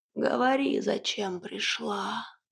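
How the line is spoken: Hoarse old witch commanding. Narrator (Russian): хрипло велела яга

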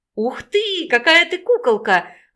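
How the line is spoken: Delighted exclamation. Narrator (Russian): восторженно воскликнула Наташа, довольная результатом своей работы

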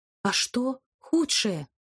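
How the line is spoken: Trembling female voice. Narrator (Russian): дрожащим голосом уточнила я

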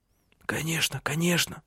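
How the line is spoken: Muttering. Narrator (Russian): Бормотал он

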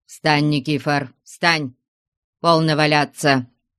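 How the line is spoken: Stern. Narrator (Russian): строго сказал ему Потап Максимыч

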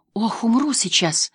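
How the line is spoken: Relieved exhale. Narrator (Russian): выдохнула она с облегчением

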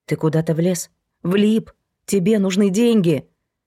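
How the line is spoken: Hoarse voice. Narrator (Russian): Ее голос сделался сиплым

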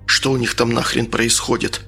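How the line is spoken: Whisper. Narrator (Russian): шепнул Антону

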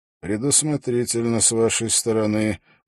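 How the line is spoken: Grim, smiling. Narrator (Russian): мрачно улыбнулся Холт

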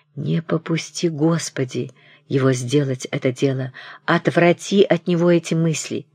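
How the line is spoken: Fervent whispered prayer. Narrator (Russian): шептали пламенную молитву

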